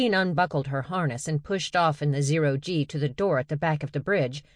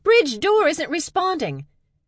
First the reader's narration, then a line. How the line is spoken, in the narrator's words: Her voice tight with tension, Nadine called out